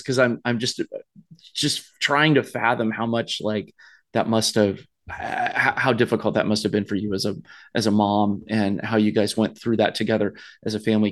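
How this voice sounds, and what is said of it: Slightly choked-up, emotional voice. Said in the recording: “I'm getting like a little choked up talking about this”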